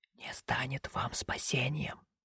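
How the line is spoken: Faint whisper, barely moving lips. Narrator (Russian): прошептал юноша еле шевелящимися губами

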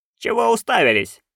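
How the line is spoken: Barking. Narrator (Russian): рявкнула она

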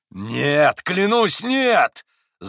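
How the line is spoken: Yelled through gritted teeth. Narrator (Russian): завопил скрежеща зубами Иван

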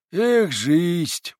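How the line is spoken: Heartfelt sigh, man. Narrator (Russian): вздохнул мужик от всего сердца

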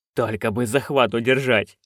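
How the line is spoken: Muttering. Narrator (Russian): бормотал он

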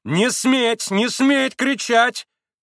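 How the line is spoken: Shout. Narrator (Russian): крикнула Грушенька

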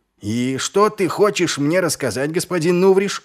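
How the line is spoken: Shouting into dark. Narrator (Russian): крикнул Ваймс в темноту переулка

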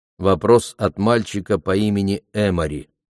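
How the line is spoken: Plain. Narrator (Russian): сказал я

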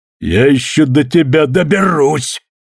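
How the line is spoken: Barked. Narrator (Russian): рявкнул Билли

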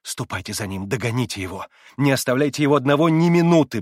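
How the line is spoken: Quick whisper. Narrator (Russian): быстро зашептала она

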